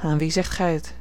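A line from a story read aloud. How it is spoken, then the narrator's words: Sighing reply. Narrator (Dutch): hernam met een zucht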